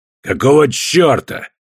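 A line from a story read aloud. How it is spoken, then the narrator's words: Barking. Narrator (Russian): рявкнул Костоправ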